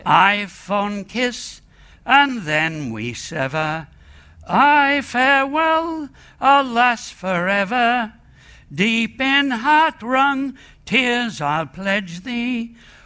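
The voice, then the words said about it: Sung in a bad Australian accent. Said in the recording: “sung ... in a bad Australian accent”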